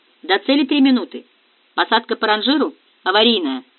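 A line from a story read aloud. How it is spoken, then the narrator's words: Curt, clipped. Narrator (Russian): отрывисто бросил Диего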